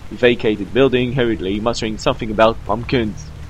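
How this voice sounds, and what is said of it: Fake English accent. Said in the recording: “with a fake English accent”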